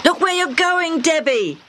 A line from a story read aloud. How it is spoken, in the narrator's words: Hammy shouted